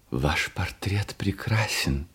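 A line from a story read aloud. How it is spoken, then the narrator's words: Whisper. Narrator (Russian): прошептал он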